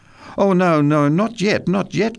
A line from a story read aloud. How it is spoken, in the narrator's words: cried Carla